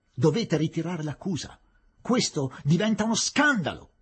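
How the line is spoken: Sudden distant yell. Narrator (Italian): urlò improvvisamente il Nawab Bahadur dal fondo dell'aula

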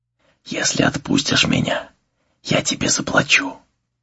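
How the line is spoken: Whispered. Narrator (Russian): Руи прошептала

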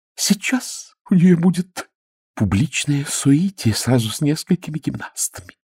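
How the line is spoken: Woman whispering. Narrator (Russian): прошептала одна дама

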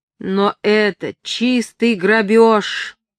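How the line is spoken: Groaning. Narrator (Russian): простонал Артур

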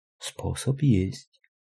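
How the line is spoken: Whispering. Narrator (Russian): прошептала Настя

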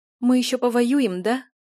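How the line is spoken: Tearful. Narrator (Russian): сквозь слезы сказала ему Юля

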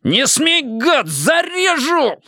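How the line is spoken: Howl. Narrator (Russian): взвыл Штырь

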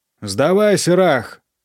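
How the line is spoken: Growling. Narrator (Russian): рычал Ити

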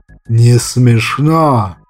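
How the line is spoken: Snarl. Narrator (Russian): рыкнул азиат

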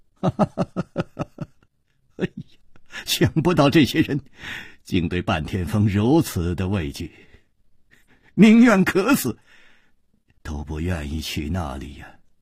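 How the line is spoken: Sighing, rueful half-laugh. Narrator (Chinese): 那个驼子就叹了一口气，哭笑着说

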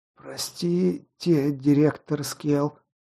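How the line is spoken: Forced strained words. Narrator (Russian): выдавил из себя Быкоголовый

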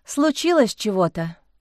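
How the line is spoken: Sighing. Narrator (Russian): вздохнула Лиза

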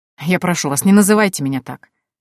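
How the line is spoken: Snorting. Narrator (Russian): фыркнул Норфолк

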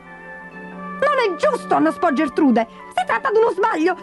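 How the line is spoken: Shouted. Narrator (Italian): gridò Berta

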